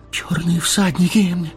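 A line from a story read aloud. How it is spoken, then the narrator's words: Breathless gasp. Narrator (Russian): выдохнул Мэри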